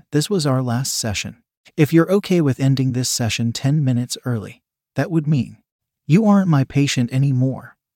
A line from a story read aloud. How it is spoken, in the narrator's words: he said